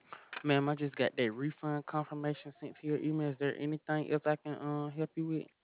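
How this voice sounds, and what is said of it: Deep South Alabama accent. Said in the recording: “are you in the Deep South? ... Alabama. ... I love your accent”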